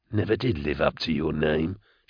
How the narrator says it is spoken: Ide murmur

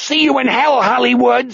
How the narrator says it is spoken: Wanda Kinderling screams

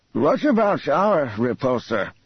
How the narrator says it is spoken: Asked the drawl Ebrahim

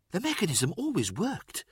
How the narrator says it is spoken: Axemand pressed, dropping his soft voice to a leaf-rustle whisper, making Abaddon bend closer to hear

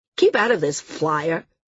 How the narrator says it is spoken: he snapped

